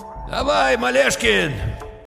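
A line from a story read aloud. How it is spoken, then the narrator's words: Shouted almost cheerfully, youthfully. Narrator (Russian): полковник вдруг почти весело, молодо крикнул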